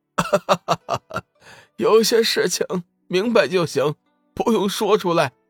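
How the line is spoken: Startled old man laughing. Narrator (Chinese): 老者先是一惊，随即大笑

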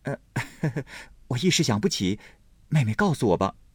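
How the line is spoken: Laughing. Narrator (Chinese): 宝玉笑道

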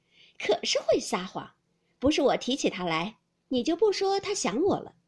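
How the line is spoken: Laughing. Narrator (Chinese): 凤姐笑道

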